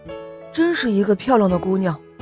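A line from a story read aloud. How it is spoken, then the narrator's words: Admiring exclamation. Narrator (Chinese): 当他看到维维娜公主的美貌时，不由得感叹说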